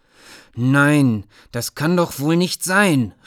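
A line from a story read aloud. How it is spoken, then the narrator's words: Called out. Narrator (German): rief Trenk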